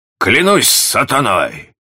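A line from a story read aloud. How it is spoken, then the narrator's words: Captain's exclamation. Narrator (Russian): воскликнул капитан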